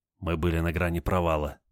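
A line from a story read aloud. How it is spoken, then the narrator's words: Whisper. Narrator (Russian): прошептал Олег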